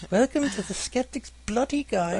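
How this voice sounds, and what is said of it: Put-on British woman's voice. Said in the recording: “the hot-sounding Brit babe who introduces the podcast ... I do a voice. ... he puts on an accent very well.”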